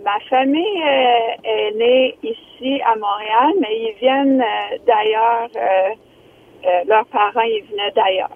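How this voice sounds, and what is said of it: Very light foreign accent. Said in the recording (French): “t'as un accent très léger, là. C'est pas clair ... C'est un accent contrôlé ... ça sonne un peu accent anglophone ... C'est très léger.”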